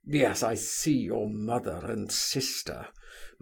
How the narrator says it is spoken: muttered Rogojin through his teeth

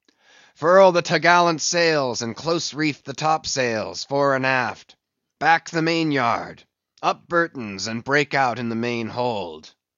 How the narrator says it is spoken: raising his voice to the crew

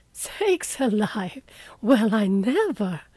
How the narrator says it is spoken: Hannah came in to exclaim

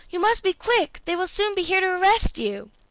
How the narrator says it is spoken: she exclaimed

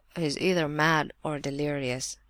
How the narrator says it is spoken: murmured Rogojin

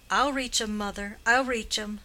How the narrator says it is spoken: the son, seeing this, called out

